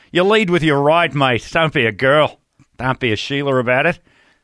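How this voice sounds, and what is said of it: Put-on Australian accent. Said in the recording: “these Australians are like ... start to do the accent”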